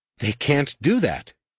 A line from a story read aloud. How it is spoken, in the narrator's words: Zek gasped